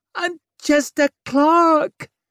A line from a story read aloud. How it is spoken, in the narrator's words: Ettenbeck's voice was a desperate squeal